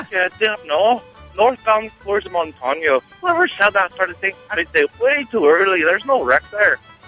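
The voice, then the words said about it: Put-on accent, done very well. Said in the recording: “that accent is impeccable ... It's a good one.”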